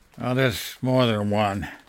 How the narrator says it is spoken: he murmured

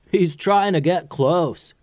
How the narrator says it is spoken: yelled Hako

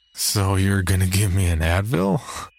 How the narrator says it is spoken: Jerry slurred and he cackled out loud

